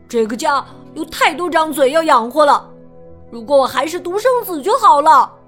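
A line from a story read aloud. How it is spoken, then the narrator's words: Loud shouting. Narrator (Chinese): 他大声叫道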